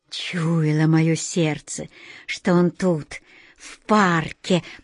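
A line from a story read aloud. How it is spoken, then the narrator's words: Whisper. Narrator (Russian): прошептал Анатолий Иванович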